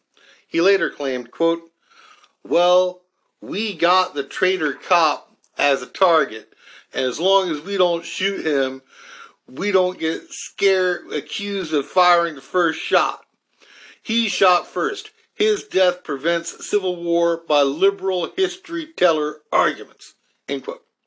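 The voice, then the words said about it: North Carolina accent. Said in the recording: “I slipped into my North Carolina accent.”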